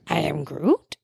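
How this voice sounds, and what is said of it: Imitates Groot character's voice. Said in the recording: “you can't do your Groot impression”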